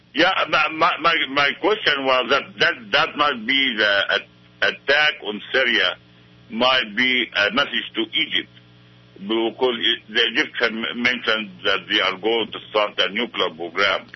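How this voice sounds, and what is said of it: Heavy accent, hard to understand. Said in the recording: “it's very hard to understand your accent ... maybe give it to us a little slower”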